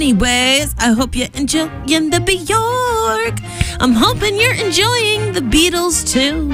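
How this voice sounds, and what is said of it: Usual voice. Nothing is said of it.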